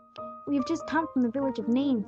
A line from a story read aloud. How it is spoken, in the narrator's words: said Timaeus Barjoram